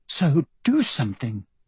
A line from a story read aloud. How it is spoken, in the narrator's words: Emma pleaded